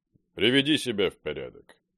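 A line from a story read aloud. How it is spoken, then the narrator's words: Calm voice. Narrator (Russian): спокойным голосом сказал Владимир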